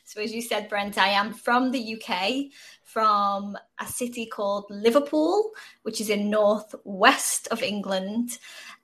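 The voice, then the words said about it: British accent. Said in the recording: “you're not American. You're British, so it's always good to hear another accent”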